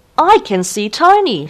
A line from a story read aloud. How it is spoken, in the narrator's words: shouted Dad